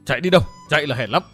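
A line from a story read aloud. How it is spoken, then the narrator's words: Angry shout. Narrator (Vietnamese): Độc Cốt Thanh Tùng nổi giận quát lên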